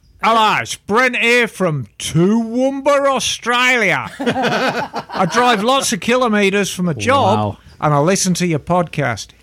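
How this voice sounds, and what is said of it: Put-on Australian accent reading. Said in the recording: “Should I read this in the accent? ... Oh, of course.”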